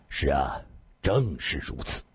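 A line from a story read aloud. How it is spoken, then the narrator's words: Sighing. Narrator (Chinese): 李寻欢叹了口气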